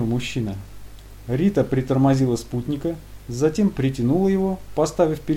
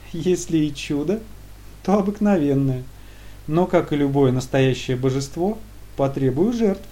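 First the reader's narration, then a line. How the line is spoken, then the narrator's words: Pleased giggling girl. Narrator (Russian): Довольная девушка хихикнула и прокомментировала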